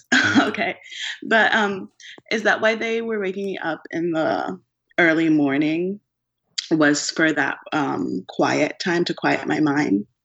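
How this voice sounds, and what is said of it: Hoarse, fading voice. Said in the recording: “my voice is, I don't know why I'm losing my voice.”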